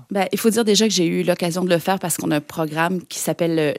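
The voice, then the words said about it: Québécois French accent. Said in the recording (French): “accent québécois ... on adore l'accent québécois”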